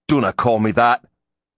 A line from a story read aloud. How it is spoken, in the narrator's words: he snapped